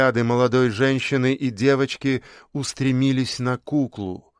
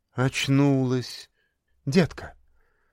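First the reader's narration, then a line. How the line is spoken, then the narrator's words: Ingratiating, soft. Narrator (Russian): вкрадчиво произнесла медсестра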